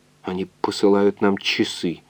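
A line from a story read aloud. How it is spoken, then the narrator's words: Weak voice. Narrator (Russian): слабым голосом сказал химик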